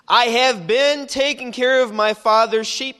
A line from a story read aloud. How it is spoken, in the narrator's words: he says